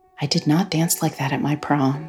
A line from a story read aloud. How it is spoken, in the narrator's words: she whispered